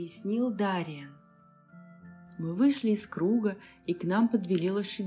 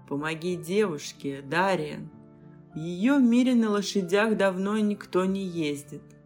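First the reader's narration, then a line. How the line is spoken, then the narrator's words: Laughed. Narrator (Russian): Посмеялся темноликий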